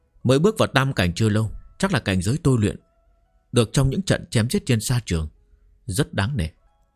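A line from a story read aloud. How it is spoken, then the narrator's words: Dismissive, head shaking. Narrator (Vietnamese): Trần Bình An lắc đầu nói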